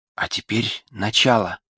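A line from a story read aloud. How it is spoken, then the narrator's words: Whisper. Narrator (Russian): прошептала она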